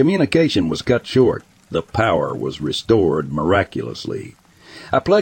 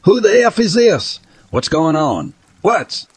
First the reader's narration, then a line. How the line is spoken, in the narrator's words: I grabbed the microphone and I yelled